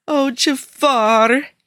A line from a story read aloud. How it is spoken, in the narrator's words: he wailed, frustration pushing away every other emotion